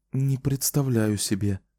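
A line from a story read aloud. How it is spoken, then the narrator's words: Whispered answer. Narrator (Russian): ответила она тоже шепотом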